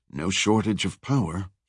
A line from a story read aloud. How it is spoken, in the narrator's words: whispered